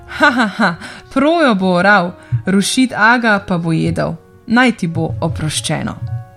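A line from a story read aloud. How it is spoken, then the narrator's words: Laughing while speaking. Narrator (Slovenian): Tedaj se je Rošit Aga nasmejal, rekoč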